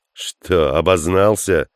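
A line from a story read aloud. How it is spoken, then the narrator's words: Mocking, curt. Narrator (Russian): насмешливо бросил Хук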